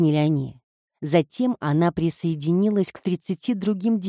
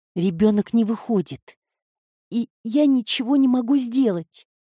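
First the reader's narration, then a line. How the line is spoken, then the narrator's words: Sobbing, pleading. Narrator (Russian): Девушка на кровати начала всхлипывать, умоляя Люси о помощи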